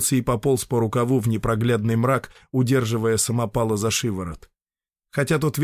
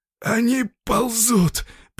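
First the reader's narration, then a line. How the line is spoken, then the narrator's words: Hoarse wheeze. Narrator (Russian): прохрипел самопал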